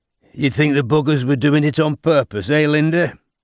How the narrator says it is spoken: said Geoffrey with a fat chuckle

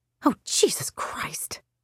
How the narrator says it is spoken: Emily muttered without thinking

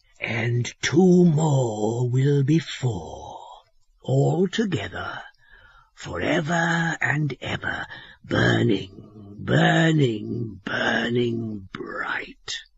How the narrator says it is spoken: he said, his voice lowering strangely

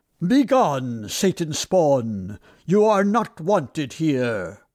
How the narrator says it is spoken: The captain stepped forth majestically and solemnly said in a loud voice

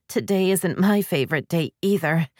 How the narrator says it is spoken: she admitted, trying not to groan

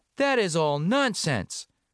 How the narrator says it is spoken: cried Washington Otis

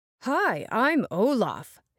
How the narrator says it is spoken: said in a deep voice, pretending to be the snowman

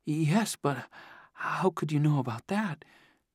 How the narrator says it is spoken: stammered

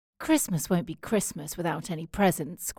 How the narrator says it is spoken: grumbled Jo

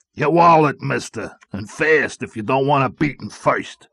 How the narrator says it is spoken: Al said menacingly

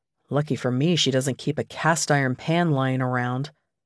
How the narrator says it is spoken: mutter

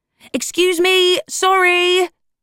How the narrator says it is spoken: she screeched, to nobody in particular and everyone all at once

